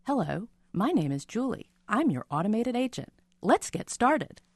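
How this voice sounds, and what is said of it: Imitates an automated phone agent voice. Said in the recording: “my quick Julie impression ... That's not bad. That's not bad.”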